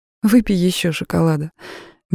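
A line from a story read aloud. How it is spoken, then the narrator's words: Soft offer. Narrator (Russian): мягко предложила я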